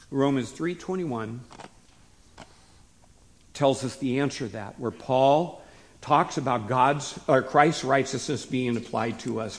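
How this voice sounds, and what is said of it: Slightly hoarse voice. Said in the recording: “I'm not completely over my hoarse voice.”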